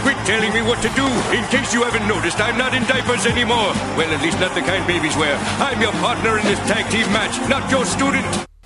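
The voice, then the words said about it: Rapid anime-style character voice. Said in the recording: “I'm doing an anime voice very rapidly delivery”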